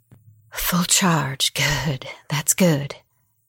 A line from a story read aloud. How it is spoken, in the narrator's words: Mama muttered